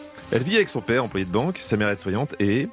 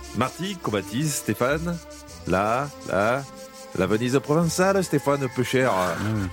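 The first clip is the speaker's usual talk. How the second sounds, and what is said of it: Poorly done put-on regional accent. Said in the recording (French): “je suis nul en accent. Je sais jamais où placer le peu cher ... l'accent pourri que je fais ... c'est pitoyable”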